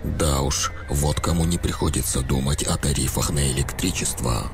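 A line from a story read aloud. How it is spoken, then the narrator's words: Whisper. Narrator (Russian): внимательно следя за улицей, прошептал Олег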